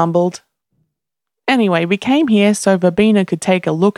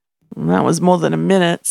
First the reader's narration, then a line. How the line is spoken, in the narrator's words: Sam muttered